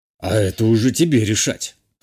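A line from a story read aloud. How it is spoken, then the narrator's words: Snorted. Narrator (Russian): хмыкнул тот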